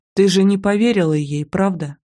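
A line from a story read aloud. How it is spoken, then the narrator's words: Plain. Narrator (Russian): спросил Дима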